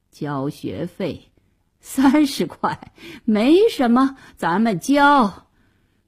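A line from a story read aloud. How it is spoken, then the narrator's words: Wry, muttering to himself. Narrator (Chinese): 爸爸苦笑了好一会儿，自言自语地说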